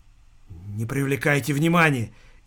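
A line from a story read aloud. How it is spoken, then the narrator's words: Frightened hiss. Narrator (Russian): испуганно прошипел сосед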